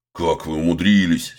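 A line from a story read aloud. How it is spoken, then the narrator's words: Angry scolding doctor. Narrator (Russian): сердито выговаривает врач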